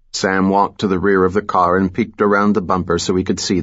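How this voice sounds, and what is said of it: Usual voice. Nothing is said of it.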